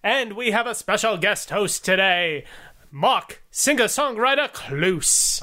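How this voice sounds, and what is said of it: Old-time 1940s newscaster voice. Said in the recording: “That's a terrible accent ... That really is a terrible accent ... That is like my 1940s news guy ... a wrestling announcer from the late 70s or if you're from the 1940s”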